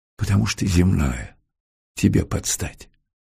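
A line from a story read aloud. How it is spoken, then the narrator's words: Whispered inner thought. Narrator (Russian): шепнула задняя мысль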